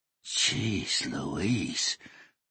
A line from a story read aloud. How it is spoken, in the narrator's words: Hoshino muttered